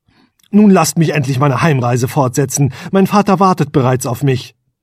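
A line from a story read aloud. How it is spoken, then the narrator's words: Curt, brusque. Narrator (German): sagte schroff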